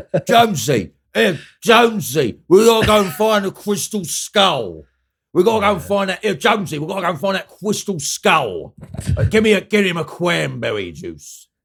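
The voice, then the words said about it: Ray Winstone impression. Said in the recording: “That was my Ray Winston impression”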